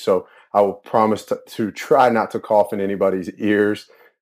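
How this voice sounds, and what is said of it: Hoarse, strained voice. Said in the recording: “I am a little bit hoarse. It's been a long weekend. This is the best my voice has sounded in a couple of days.”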